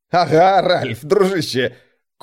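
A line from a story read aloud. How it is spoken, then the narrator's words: Suppressed laughter. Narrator (Russian): Курт давился от еле сдерживаемого хохота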